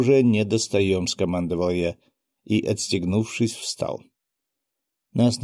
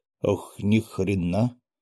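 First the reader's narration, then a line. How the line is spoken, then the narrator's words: Muttered. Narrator (Russian): пробормотал Костя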